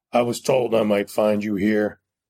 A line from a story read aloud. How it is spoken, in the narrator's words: said in his deep, rumbling voice